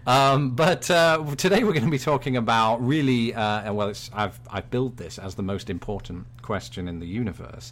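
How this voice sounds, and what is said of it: British accent. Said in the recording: “I'm the British one ... in my own British brogue.”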